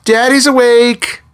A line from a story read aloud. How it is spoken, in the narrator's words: she screeched